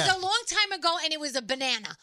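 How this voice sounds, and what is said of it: Bronx accent. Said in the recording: “you have your Bronx accent right now ... When you're very serious about something, you turn Bronx.”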